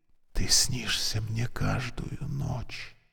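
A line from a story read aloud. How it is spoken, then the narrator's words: Whisper. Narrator (Russian): прошептал Борис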